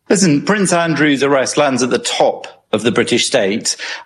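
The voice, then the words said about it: British accent. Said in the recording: “another Brit ... anybody with a British accent”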